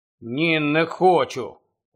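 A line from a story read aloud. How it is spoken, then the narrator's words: Barely audible mumble. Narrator (Ukrainian): ледь чутно пробурмотів Рон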